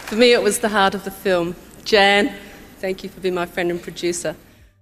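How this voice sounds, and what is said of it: New Zealand (Kiwi) accent. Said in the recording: “Jane Campion ... a Kiwi accent”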